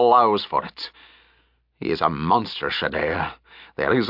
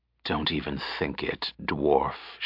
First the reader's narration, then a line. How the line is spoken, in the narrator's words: she hissed softly